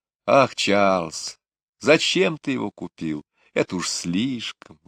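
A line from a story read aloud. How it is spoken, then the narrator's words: Delighted exclamation. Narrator (Russian): воскликнула мама, но глаза у нее сияли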